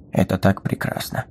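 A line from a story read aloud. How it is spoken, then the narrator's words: Quiet. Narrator (Russian): негромко произнес Стедлер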